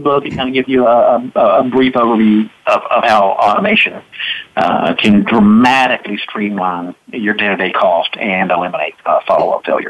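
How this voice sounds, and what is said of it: Boston-like American accent. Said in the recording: “I thought I detected a New York accent... maybe it was kind of in the southern part of the country... it's more like Boston, I think.”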